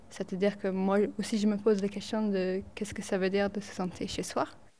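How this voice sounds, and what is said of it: Slight English accent in French. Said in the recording (French): “moi j'ai un tout petit accent. Je ne sais pas si vous avez noté, c'est léger. Mais en fait, je suis anglaise”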